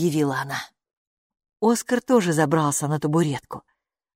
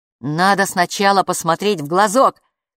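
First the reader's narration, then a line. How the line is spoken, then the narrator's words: Shout. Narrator (Russian): крикнул Капу вслед Оскару и Хилле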